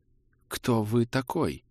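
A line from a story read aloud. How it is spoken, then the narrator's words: Quiet trembling voice. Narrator (Russian): спросил он тихим, дрожащим голосом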